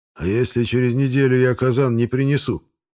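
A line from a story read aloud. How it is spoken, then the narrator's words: Muffled, hollow question. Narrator (Russian): глухо спросил у меня Рабих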